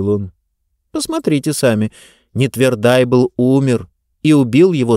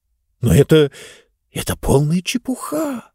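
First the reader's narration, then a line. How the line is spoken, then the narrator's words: Uncertain mumble. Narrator (Russian): неуверенно пробормотал Финг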